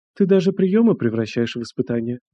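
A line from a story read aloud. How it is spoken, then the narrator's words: Quiet reply. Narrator (Russian): Андрей лишь тихо ответил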